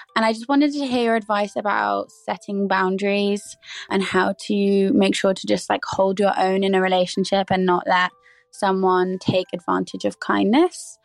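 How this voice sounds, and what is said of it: A beautiful, stunning accent. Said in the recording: “that accent. That was beautiful. That was stunning.”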